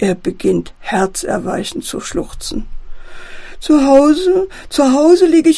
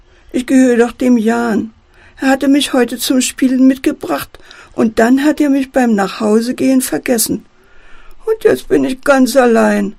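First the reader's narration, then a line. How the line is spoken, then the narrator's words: Wailing toy. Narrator (German): jammert der Teddy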